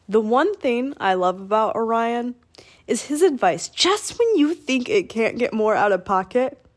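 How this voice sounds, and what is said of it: Sick, slightly breathless, strained voice. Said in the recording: “I'm sick right now. So if I sound out of breath or my voice is a bit weird”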